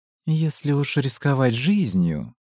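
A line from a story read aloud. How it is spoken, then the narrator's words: Through gritted teeth. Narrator (Russian): процедила Вера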